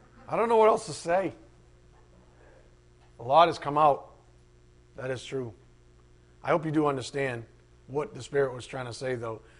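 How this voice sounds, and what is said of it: Worn-out, strained voice. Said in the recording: “My voice is shot.”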